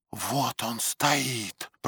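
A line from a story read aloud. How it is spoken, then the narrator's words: Whisper. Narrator (Russian): прошептала Фрида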